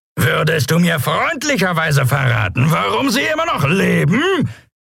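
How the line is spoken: Shouting over wind noise. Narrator (German): brüllte er gegen das Tosen des Windes und das Lärmen der Schubdüsen an

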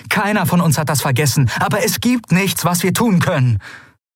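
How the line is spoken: Stern call. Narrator (German): rief Endriel streng

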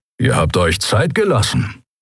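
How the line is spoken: Grumbled. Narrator (German): brummte er

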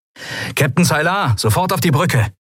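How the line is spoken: Called into speaking tube. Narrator (German): rief Sephiron in eines der Sprechrohre

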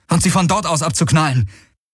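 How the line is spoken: Calling out. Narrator (German): rief Galen

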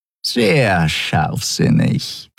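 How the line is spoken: Purring close by ear. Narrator (German): schnurrte Shi'ar dicht neben seinem Ohr

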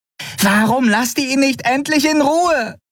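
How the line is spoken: Shouted. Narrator (German): schrie Nelen die Weißmäntel an

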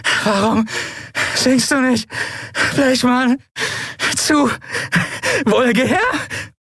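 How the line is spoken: Helpless uncontrollable laughter. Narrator (German): schüttelte sie ein Lachen, das ihr den Bauch und die Eingeweide zerriss, und sie konnte nicht aufhören zu lachen

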